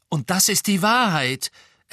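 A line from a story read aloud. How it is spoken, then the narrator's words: Loud reply. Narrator (German): erwiderte Harry laut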